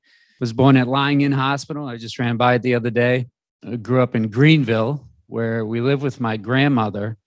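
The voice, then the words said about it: Rhode Island accent. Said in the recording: “It's going to surprise you to hear when you hear my accent that I'm from Rhode Island.”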